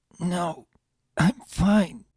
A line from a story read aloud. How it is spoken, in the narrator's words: Sunshine cringed, his voice wavering as he said